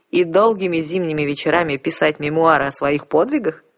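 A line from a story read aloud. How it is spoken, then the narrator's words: Vampire laughing. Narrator (Russian): рассмеялся вампир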